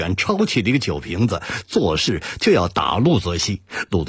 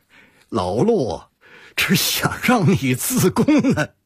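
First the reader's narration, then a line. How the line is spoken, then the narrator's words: Bursting out laughing. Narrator (Chinese): 毛俊笑得饭都喷了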